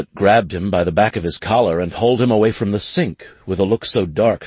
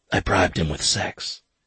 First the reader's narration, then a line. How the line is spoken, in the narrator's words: Finley whispered